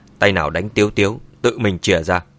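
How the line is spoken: Cold stern voice. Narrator (Vietnamese): Mã Tuân mặt mày lạnh lùng nói

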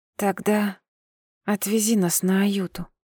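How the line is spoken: Soft request. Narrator (Russian): тихонько попросила

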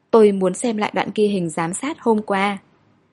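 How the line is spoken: Hoarse voice. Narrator (Vietnamese): khàn khàn nói

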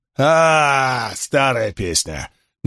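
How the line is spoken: Mocking retort. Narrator (Russian): насмешливо бросил Крикс

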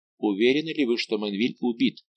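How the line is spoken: Plain question. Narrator (Russian): спросил Кальбер офицера

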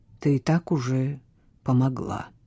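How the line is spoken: Quiet. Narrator (Russian): тихо ответил он

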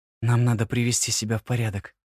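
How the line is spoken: Quiet female voice. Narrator (Russian): тихо произнесла она

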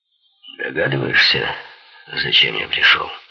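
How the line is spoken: Rough question. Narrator (Russian): грубо спросил Хоган

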